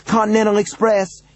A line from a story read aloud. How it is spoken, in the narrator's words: he cried, now separated from his own voice by what felt like miles